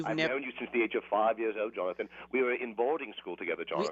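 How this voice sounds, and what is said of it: Fake posh British accent. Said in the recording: “fake British accent ... this ridiculous accent ... British, ... all the affect of a moneyed British aristocrat”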